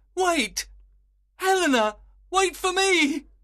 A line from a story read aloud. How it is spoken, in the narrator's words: cried Lysander